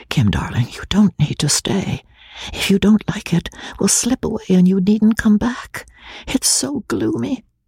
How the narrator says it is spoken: She whispered hurriedly in her ear

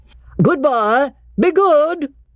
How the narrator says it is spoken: called out Cecil

